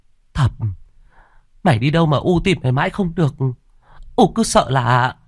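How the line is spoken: Panicked mother's voice. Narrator (Vietnamese): mẹ ông vội vàng ôm chầm lấy con nói bằng giọng hoảng hốt

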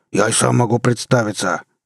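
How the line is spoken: Barked. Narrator (Russian): рявкнул на него Брас

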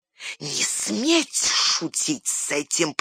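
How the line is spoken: Hiss. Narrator (Russian): прошипел Горлум

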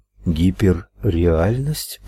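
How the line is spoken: Muttered. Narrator (Russian): пробормотала она

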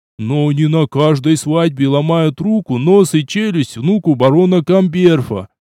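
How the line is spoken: Gloomy mutter. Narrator (Russian): мрачно пробормотал Жмых

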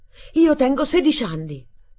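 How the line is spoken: Exclaiming. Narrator (Italian): esclamai

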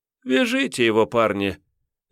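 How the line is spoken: Lazy yawn, young woman. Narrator (Russian): лениво зевнула красотка

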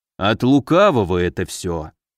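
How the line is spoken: Grumbling. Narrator (Russian): проворчал Муром

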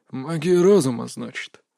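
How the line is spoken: Mutter. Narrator (Russian): пробормотал мастер Даэ

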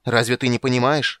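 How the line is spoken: Shouting. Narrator (Russian): закричал Карамон

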